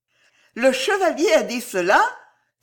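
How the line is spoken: Delighted exclamation. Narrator (French): s'écria l'hôtesse en rougissant de plaisir

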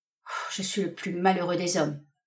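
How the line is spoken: Murmured. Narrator (French): murmura le marin

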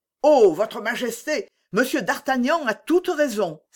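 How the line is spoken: Cry from the door. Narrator (French): s'écria la porte

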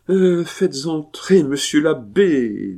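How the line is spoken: Triumphant voice. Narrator (French): dit la marquise d'une voix triomphante

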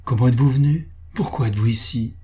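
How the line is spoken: Impassioned female repetition. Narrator (French): répéta-t-elle d'un ton exalté

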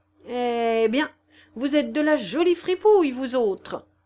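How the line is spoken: Shouted. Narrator (French): cria

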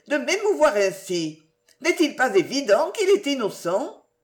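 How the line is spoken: Exclaiming. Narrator (French): s'écria-t-elle

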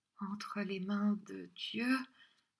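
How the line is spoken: Murmured. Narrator (French): murmura-t-elle

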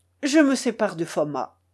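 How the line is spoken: Resolute uncle. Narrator (French): répondit mon oncle d'un ton résolu

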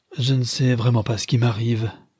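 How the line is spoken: Weak murmur. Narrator (French): murmurait-elle d'une voix affaiblie

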